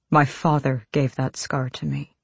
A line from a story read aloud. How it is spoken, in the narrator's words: Kaol said quietly